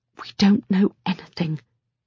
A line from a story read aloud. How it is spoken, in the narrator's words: say, and it comes out in a whisper